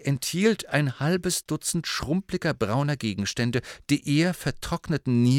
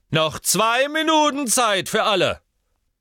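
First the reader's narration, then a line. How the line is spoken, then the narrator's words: Calling out. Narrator (German): Slughorn rief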